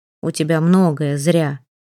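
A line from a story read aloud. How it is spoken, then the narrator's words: Gloomy curt doctor. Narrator (Russian): мрачно отрезал доктор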